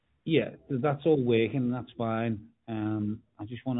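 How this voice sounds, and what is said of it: Usual voice. Nothing is said of it.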